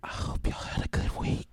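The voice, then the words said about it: Whispering. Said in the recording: “I'm going to start whispering. I'm going to whisper the whole episode”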